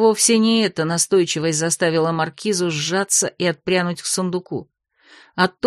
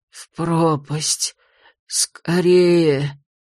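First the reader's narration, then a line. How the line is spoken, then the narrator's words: Hoarse order, gurgling cough. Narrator (Russian): Донеслось хриплое приказание и прервалось булькающим кашлем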